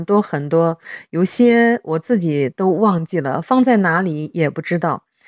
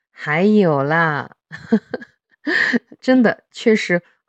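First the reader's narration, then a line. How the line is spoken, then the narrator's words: Laughing. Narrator (Chinese): 塞尔还是笑着说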